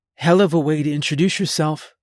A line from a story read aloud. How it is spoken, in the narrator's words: she said